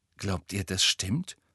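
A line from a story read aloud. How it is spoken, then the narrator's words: Startled whisper. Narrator (German): flüsterte Hermine aufgeschreckt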